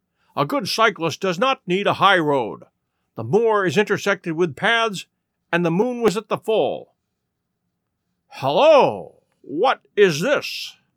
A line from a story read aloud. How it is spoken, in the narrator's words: said Holmes impatiently